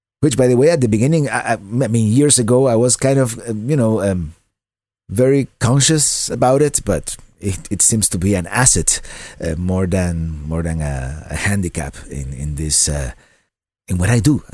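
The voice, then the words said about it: Cuban Spanish accent in English. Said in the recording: “I'm from Cuba originally, and I grew up speaking Spanish, and that's why I speak English with kind of a funny accent.”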